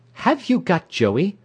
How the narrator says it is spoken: cried sharply, as if I were a thief

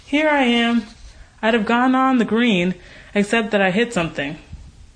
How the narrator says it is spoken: she called cheerfully

